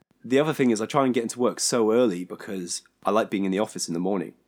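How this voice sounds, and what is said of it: Hoarse, failing voice. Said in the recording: “My voice is really going. ... It is. ... Can you hear that?”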